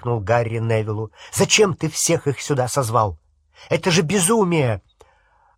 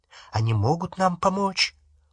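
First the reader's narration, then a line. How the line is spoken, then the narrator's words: Very quiet lowered voice. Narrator (Russian): Он понизил голос и сказал так тихо, что слышать его могла только стоявшая между ними Гермиона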